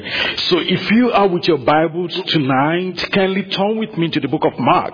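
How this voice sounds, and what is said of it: Speaks with a noticeable accent. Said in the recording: “you would probably have noticed that I have accent”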